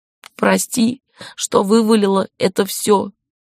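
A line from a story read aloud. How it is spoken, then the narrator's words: Sobbing and hiccuping. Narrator (Russian): Вдобавок к рыданиям Шири начала икать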